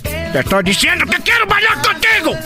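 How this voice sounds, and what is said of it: Angry shouting. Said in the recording (Spanish): “no lo estés regañando, ¿por qué, la, qué le gritas?”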